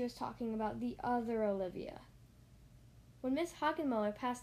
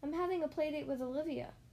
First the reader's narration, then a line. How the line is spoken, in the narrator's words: Francine exclaimed